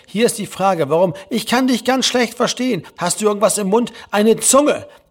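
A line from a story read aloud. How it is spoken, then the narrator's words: Venomous call. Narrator (German): rief Herr Lehmann giftig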